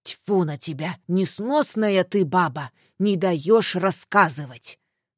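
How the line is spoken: Angry father growling. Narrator (Russian): в сердцах рыкнул отец

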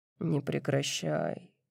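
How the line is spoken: Muttering. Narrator (Russian): бормочет он

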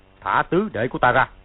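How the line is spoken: Deep-voiced shout. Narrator (Vietnamese): tiếng gầm nhỏ, Thanh Giáp Sư Vương Sử Thúc Cương thong thả đứng dậy, trầm giọng quát lên

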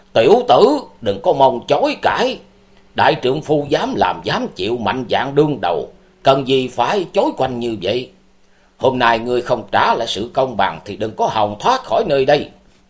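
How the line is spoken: Roaring like a tiger. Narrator (Vietnamese): Xuyên Trung Hắc Đạo Minh Chủ tàn thần độc đảm Vũ Văn Hùng như hổ gầm nói

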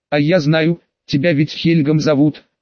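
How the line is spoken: Plain. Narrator (Russian): сказала Лакшми юноше

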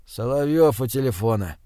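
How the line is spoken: Sleepy voice. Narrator (Russian): сонно произнес

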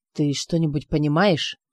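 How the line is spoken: Whisper. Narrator (Russian): он прошептал

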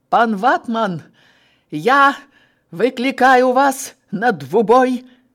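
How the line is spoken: Male shout. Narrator (Belarusian): выкрыкнув пранціш

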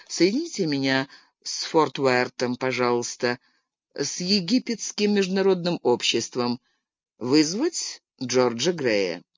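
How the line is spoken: Quiet. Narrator (Russian): тихо сказал

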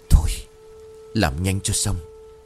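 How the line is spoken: Heavy-breathing low mutter. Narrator (Vietnamese): Thành thở mạnh, khẽ nói qua kẽ rằng

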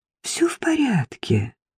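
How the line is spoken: Warm, smiling. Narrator (Russian): Ласково улыбнулась Сафи

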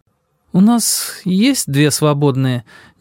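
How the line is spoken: Hesitant, uncertain. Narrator (Russian): неуверенно произнесла она, будто раздумывая, не отказать ли мне

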